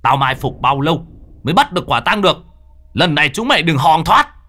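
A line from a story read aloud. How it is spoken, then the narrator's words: Shouting. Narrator (Vietnamese): Người nọ hét lên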